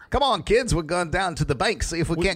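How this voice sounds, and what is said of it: Bad put-on Australian accent. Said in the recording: “tone down the bad Australian accent ... my Australian accent ... you're not going to do the voice”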